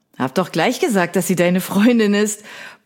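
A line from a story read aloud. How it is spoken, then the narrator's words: Blustering, red with laughter. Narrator (German): poltert Finn, der vor Lachen anläuft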